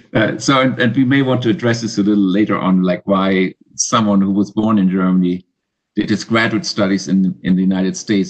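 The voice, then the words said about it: German accent. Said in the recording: “I have a accent, and that accent is a German accent.”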